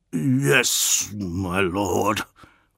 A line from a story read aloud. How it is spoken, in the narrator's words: rasped Eidolon, retreating in the face of Fulgrim's ire